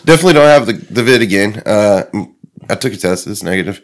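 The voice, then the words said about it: Sick, changed-sounding voice. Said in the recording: “I'm sick as fuck ... You sound different ... definitely have the bronchitis”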